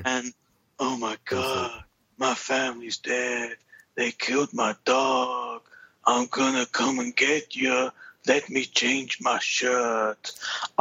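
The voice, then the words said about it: Imitates another person's voice, badly. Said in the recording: “terrible, terrible Keanu Reeves impression”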